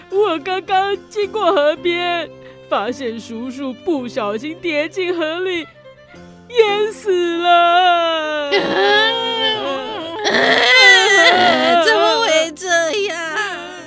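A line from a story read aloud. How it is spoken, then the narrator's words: Grief-stricken wailing. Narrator (Chinese): 婶婶伤心的大哭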